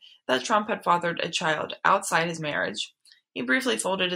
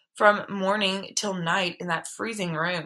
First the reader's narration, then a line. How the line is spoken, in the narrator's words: he moaned at one